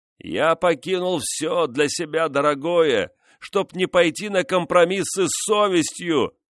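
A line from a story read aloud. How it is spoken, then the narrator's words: Shouting. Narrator (Russian): крикнул он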